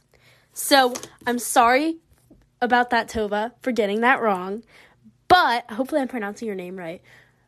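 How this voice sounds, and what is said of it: Southern American accent. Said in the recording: “my Southern American accent decides to betray me”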